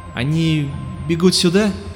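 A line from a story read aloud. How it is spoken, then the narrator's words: Uncertain question. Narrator (Russian): спросил неуверенно парень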